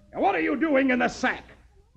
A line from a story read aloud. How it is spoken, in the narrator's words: Beetle smiles sweetly